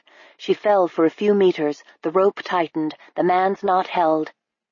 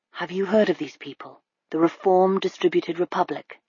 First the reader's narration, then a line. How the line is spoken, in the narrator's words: said to Fiona, still keeping his voice low